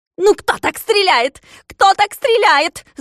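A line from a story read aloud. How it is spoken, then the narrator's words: Irritated shout. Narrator (Russian): закричал с раздражением Клопс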